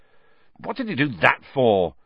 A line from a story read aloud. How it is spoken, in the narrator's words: said Harry, furiously